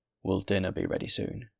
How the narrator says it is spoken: said the man

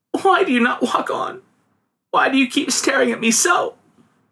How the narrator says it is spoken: sobbed the girl

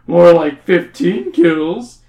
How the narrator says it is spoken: The other person laughs

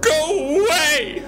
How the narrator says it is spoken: I scream

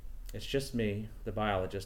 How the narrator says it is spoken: I said in a calm voice, even though she had rattled me

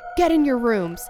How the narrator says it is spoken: he yelled to the terrified youngsters

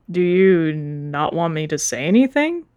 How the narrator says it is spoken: Copper groaned

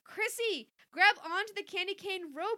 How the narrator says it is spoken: Nick cried

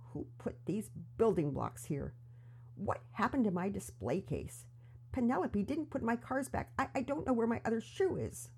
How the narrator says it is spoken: miserably mutter to himself

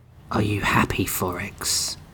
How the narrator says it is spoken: The Wraith whispered

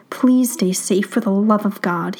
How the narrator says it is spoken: he mutters

